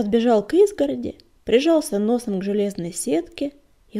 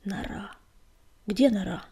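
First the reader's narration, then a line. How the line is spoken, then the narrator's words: Growling leader. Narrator (Russian): рычал вожак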